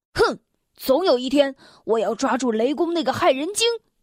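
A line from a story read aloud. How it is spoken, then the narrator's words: Angry father. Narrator (Chinese): 愤怒的父亲说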